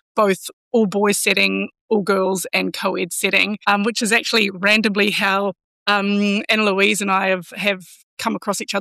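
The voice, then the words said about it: Slight New Zealand accent twang. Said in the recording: “I've got a little bit of a twang in my accent here. I'm from New Zealand”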